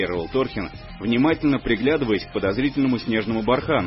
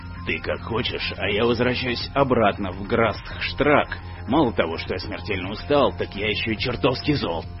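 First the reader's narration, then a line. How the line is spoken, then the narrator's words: Grumbling. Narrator (Russian): ворчал Глаз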